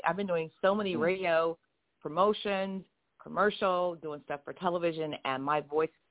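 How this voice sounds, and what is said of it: Raspy voice. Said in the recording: “I was screaming yesterday... my voice is a little... if I sound a little bit raspy”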